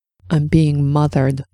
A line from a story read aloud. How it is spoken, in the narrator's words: Cordelia muttered under her breath